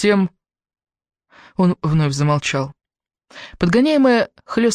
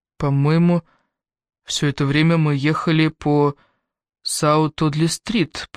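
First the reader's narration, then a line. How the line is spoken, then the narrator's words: Muttered. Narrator (Russian): пробормотал Квентин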